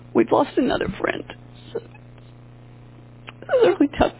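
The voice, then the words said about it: Emotional, choked-up voice. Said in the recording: “I'm a little emotional.”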